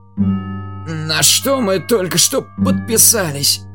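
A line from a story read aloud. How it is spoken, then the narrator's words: Strained, strangled voice. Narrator (Russian): спросил Гидрак сдавленным голосом, с трудом перенося ускорение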